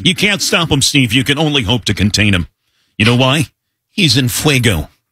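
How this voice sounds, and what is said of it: Sportscaster impression. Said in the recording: “it's a good impression ... That's a good impression”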